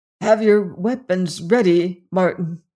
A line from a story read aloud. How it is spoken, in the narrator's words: gasped Sir Richard